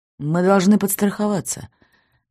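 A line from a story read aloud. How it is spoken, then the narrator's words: Sighing. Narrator (Russian): вздохнул Леонид Сергеевич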